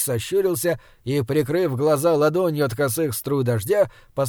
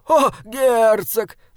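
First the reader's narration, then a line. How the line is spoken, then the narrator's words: Jester shouting. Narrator (Russian): закричал шут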